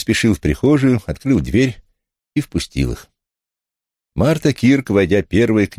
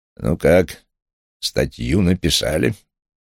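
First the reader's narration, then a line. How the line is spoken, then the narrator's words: Grumbling. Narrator (Russian): пробурчал Дейл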